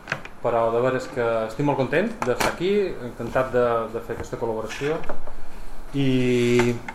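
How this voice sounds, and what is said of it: Mallorcan Catalan accent. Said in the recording (Catalan): “Som de Mallorca. I tenc un accent raro.”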